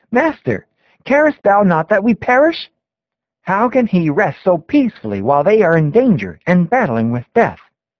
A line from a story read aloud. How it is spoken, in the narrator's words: In amazement and despair, they exclaim